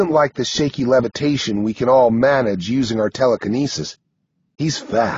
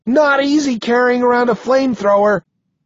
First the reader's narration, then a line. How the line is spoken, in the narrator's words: he yells back, trying to joke, but his voice sounds strained